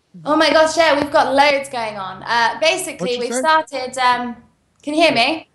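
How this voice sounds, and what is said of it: British English accent. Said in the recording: “your accent is just like our friend Ozzy Aziz ... Typically British.”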